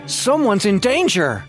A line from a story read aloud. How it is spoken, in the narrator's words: exclaimed